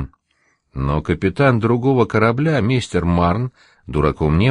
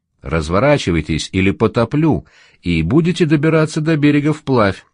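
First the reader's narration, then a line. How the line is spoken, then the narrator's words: Shouting through megaphone. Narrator (Russian): крикнул в мегафон Кендлис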